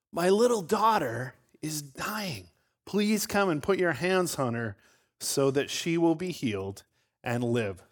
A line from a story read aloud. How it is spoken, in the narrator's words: He pleaded earnestly with them